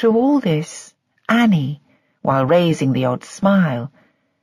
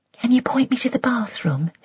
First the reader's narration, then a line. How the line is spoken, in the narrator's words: she whispered to Mrs